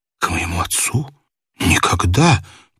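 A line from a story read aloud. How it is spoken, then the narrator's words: Muttered. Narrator (Russian): пробормотал граф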